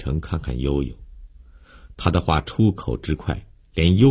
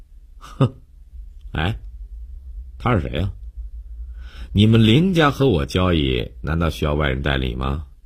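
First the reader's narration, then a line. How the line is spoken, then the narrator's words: Sneering question. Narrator (Chinese): 江帆冷笑了一下，故意对林信成问道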